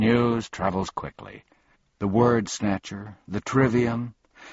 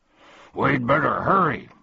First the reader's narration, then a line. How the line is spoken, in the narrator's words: barked Tok